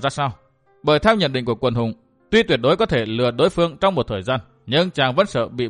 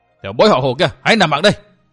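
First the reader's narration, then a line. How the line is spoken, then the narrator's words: Shout. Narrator (Vietnamese): Trong tiếng quát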